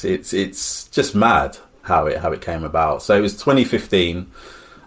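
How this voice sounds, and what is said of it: Smiling, happy-sounding voice. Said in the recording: “my cheeks, the smile on my face, you can probably hear it in my voice”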